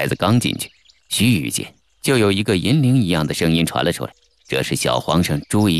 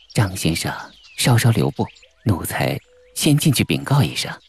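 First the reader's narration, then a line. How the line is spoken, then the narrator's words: Eunuch speaking low. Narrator (Chinese): 领路的牙牌太监低声地说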